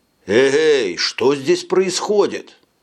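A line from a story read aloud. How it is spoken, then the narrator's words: Exclaimed. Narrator (Russian): воскликнул Сторм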